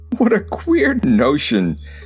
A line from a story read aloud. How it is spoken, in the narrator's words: cried the Fox King, beginning to laugh